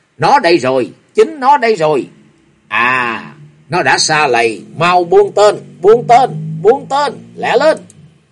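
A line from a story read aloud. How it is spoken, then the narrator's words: Loud scolding shout. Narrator (Vietnamese): tiếng quát nạt vang lên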